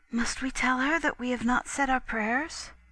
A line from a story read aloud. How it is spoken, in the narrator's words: my little sister whispered